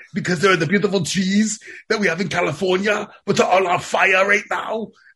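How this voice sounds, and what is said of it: Put-on Austrian German-style accent. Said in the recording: “German. ... I am not German. I am Austrian.”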